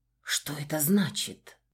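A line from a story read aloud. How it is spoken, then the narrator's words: Girl whispering. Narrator (Russian): шепнула девушка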